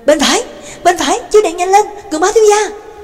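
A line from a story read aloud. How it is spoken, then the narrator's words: Urgent cry. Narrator (Vietnamese): Nhạc Dương đã lại kêu lên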